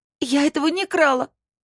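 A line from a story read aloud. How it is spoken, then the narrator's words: Shouting. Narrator (Russian): закричала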